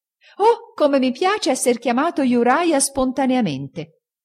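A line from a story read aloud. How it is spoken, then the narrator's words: Exclaimed. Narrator (Italian): esclamò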